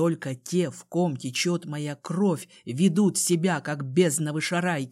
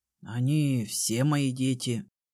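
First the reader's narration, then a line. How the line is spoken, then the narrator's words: Mumble. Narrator (Russian): пробормотал Джей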